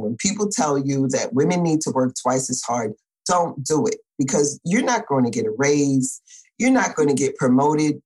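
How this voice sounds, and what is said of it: New York accent. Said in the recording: “I'm a New Yorker. When I get excited, the accent comes out.”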